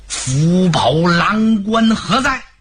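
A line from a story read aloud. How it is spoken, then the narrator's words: Angry roar. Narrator (Chinese): 曹洪，怒吼一声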